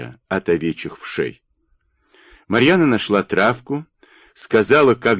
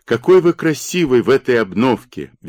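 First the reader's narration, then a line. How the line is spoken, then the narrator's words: Cheerful greeting. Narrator (Russian): весело встретила его Марьяна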